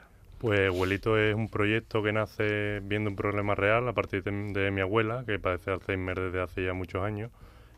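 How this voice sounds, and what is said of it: Good radio announcer-like voice. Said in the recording (Spanish): “Qué buena voz ... voz de locutor ... ¿esto es un chavalito o es un señor de radio?”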